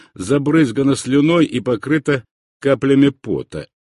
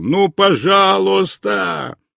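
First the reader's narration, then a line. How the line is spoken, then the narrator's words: Boy shouting. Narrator (Russian): мальчишка кричал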